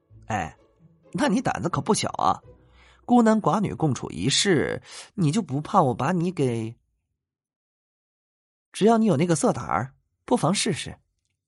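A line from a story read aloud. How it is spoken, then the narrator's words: Creepy chuckle. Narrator (Chinese): 李想嘿嘿怪笑了一声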